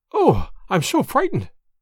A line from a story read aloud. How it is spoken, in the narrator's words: panted